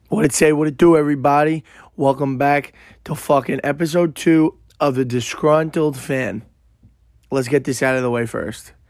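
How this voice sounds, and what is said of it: Hoarse, worn-out voice. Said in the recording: “My voice is literally shot from the game on Sunday... I literally couldn't talk for the past 2-3 days... Sorry if my voice is this bad”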